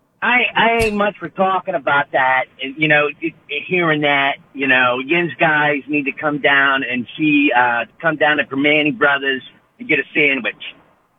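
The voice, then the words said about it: Put-on Pittsburgh accent. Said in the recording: “Can you do a Pittsburgh accent for me? What does a Pittsburgh accent sound like? ... Yeah, that sounds about right.”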